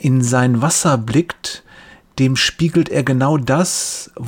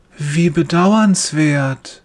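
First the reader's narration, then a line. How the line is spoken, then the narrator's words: Soft, gentle voice. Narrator (German): sagt er mit sanfter Stimme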